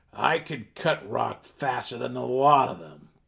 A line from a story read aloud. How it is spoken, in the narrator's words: Borough Warden growled fiercely